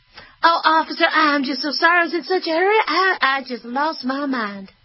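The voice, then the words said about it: Put-on Southern Belle accent. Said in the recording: “I'll even throw a little southern accent. ... Southern Belle”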